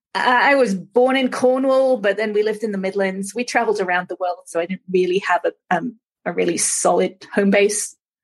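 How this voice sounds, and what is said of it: Slight mid-Atlantic English accent. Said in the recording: “I hear a little bit of an accent ... there's still a little bit of the English accent ... if I go back to England, they think I'm American. So really, it's a mid-Atlantic accent.”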